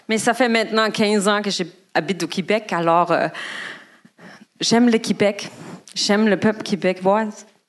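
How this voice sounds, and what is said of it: Non-local French accent in Québec. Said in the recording (French): “mon accent ne vous cache pas que je ne viens pas d'ici”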